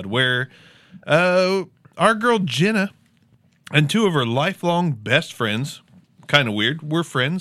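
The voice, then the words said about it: Southern Ohio accent. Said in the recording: “my Southern Ohio accent almost makes it sound like I'm an axe murderer”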